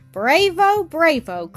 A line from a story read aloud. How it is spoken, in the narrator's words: cried I